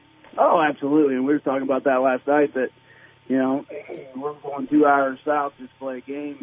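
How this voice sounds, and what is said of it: Hoarse, nearly lost voice. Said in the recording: “my voice is about gone from screaming and hollering”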